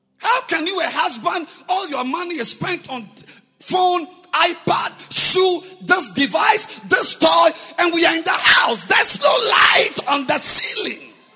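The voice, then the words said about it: Shouting. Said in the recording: “I'm sorry for shouting.”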